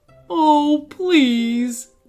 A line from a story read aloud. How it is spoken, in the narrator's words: wailed Mr